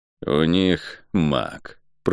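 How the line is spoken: Through gritted teeth. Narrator (Russian): процедил Кальн

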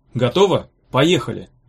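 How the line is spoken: Sharp command. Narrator (Russian): резко приказал

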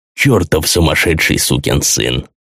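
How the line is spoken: Respectful grumble. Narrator (Russian): с большим уважением проворчал Белфойер

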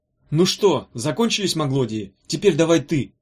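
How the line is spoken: Excited shout. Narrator (Russian): в азарте крикнул Меф Иссерху

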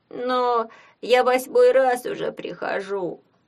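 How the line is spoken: Moaned. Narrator (Russian): простонал бедолага

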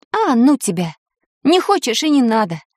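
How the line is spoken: Exclaimed. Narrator (Russian): воскликнула Таня

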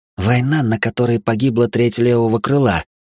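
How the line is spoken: Furious exhale. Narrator (Russian): с яростью выдохнула Лаура

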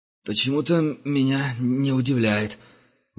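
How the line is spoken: Forced out. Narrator (Russian): выдавил Герман

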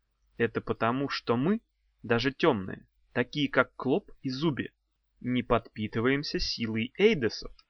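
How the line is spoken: Plain. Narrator (Russian): сказала доцент Горгонова

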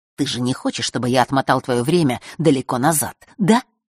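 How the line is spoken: Mocking whisper. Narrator (Russian): издевательски прошептал он

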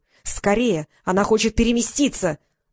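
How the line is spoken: Angry cry. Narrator (Russian): зло вскрикнула Елена

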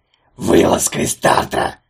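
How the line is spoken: Hoarse wheeze. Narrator (Russian): прохрипел Антигон

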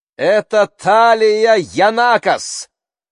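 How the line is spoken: Mother shouting. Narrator (Russian): закричала мама

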